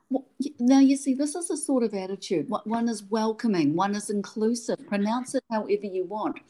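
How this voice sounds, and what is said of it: New Zealand accent. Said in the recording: “my Kiwi accent”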